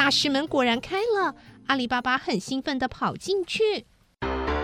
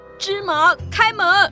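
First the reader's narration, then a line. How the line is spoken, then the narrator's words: Bold shout. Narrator (Chinese): 阿里巴巴鼓起勇气出来喊着说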